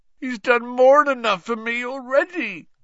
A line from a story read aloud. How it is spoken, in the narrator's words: groaned Hagrid